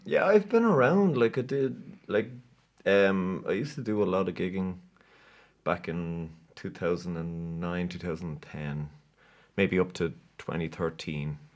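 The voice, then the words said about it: Irish accent. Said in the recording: “That's an Irish accent, right? ... It's an Irish accent”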